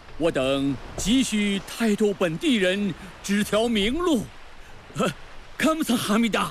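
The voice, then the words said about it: Korean accent. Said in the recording (Chinese): “听你这口音，大人可是来自朝鲜王国全罗道罗州？”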